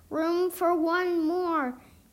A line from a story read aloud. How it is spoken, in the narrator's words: Annie shouted to the lady back